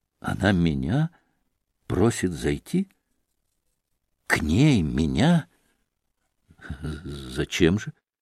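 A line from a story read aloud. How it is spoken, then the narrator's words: Deeply surprised mumble. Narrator (Russian): С глубоким удивлением пробормотал Алеша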